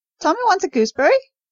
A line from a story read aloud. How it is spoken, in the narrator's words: shrieked the macaw